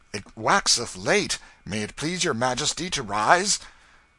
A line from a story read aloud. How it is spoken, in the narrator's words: exclaimed